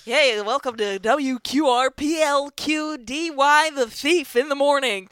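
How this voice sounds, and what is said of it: Exaggerated radio DJ voice. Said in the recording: “Here's my best radio voice ... that radio voice”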